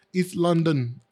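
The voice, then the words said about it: Poor put-on British accent. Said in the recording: “terrible British accent”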